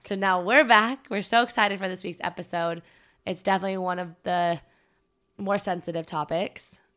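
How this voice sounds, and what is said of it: Slightly raspy voice. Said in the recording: “I lost my voice. It's still a little raspy, but it's back for the most part.”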